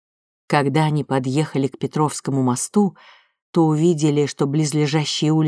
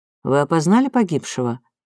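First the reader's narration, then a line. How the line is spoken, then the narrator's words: Official tone. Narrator (Russian): официальным тоном спросил Протопопов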